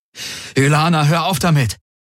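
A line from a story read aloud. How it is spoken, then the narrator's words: Exclaimed. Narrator (German): rief aus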